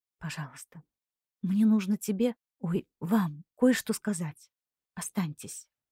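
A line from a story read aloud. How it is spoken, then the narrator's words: Soft, gentle plea. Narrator (Russian): попросила мягким и ласковым голосом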